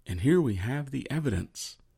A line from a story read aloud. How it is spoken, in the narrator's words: Agent Richard whispered